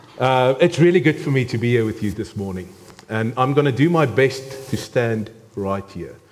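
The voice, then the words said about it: South African accent. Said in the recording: “my accent. As I am 100% a South African, and this is the accent. ... This is the accent”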